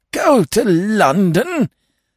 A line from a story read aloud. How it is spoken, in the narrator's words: gasped Lord Emsworth, appalled